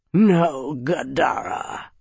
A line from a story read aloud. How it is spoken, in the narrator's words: Varg growled